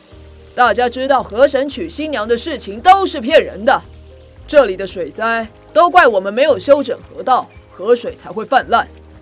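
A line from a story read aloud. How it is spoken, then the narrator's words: Loud. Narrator (Chinese): 大声地说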